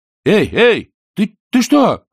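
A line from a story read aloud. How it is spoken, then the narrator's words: Shouting. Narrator (Russian): кричал Чонкин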